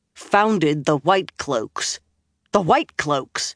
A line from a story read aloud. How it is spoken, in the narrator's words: Gawain said in a tight voice